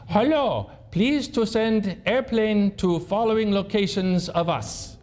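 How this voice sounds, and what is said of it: Put-on foreign accent, broken English. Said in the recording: “it comes across really scratchy on the radio, and it sounds like a Taliban accent.”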